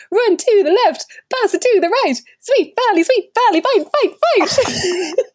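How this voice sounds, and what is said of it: Peppy cheerleader chanting voice. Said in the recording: “put on my best cheer voice”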